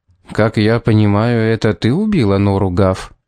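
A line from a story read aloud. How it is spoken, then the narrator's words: Even-voiced question. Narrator (Russian): ровным голосом спросил Томас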